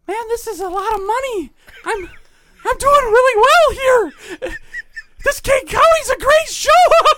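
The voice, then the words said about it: Impression of a friend. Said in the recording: “my Ben impression”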